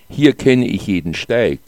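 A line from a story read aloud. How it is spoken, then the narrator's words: Plain. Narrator (German): sagte der Tourist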